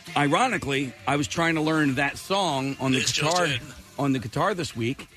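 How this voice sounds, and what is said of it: Strained, partly lost voice. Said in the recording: “I think I might know exactly where my voice went.”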